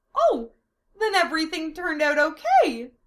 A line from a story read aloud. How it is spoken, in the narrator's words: Amelia exclaimed